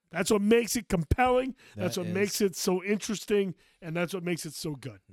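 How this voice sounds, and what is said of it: Voice worn out, nearly gone. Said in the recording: “My voice is just about gone.”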